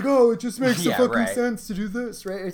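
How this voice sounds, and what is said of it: Scalia impression. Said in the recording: “great Scalia impression”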